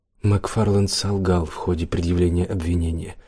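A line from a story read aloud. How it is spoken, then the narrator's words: Serious voice. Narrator (Russian): серьезным голосом сказала Оливия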